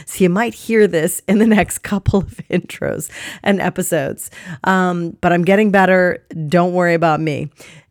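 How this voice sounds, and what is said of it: Voice sounds different, like a cold. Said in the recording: “my voice sounds a bit different, it's because I've got a cold”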